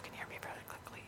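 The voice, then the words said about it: Whispering voice. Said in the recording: “this is my whisper voice”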